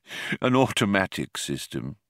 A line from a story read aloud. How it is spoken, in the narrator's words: said, and gave a small sigh